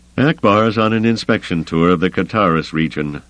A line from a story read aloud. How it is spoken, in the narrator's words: Rayikan said grimly